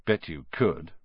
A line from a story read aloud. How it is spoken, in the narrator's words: Ron muttered